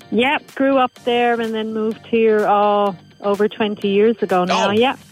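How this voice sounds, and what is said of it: Irish accent. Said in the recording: “do I sense a bit of an accent? ... Yes, there is an accent, yeah. ... It's an Irish accent. ... you still got the accent and it hasn't like faded out at all.”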